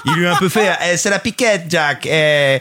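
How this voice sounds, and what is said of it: Put-on foreign accent, unconvincing. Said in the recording (French): “je suis pas sûr de cet accent... Moi non plus”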